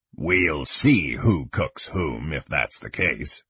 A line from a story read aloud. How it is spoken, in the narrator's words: Kang growled